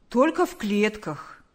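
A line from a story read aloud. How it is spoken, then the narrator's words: Cheerful reply. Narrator (Russian): бодро ответил мистер Квашневский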